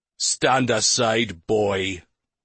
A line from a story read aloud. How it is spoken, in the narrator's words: one older man growled